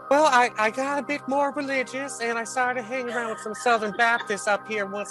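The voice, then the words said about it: Southern US accent. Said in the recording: “you seemed to not have this accent. It sounds like you spent some time in the South.”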